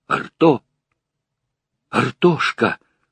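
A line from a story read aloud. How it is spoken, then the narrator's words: Trembling whispered call. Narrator (Russian): позвал Сергей дрожащим шепотом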